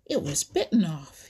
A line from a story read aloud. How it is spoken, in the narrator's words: he exclaimed